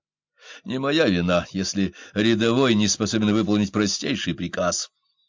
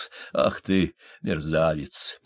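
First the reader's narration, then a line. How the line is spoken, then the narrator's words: Mutter. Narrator (Russian): пробормотал он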